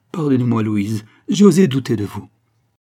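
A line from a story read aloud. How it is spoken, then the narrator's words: Exclaimed. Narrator (French): s'écria-t-il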